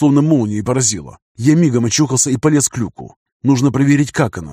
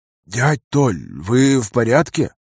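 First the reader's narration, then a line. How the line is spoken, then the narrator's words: Quiet question. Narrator (Russian): спросил тихо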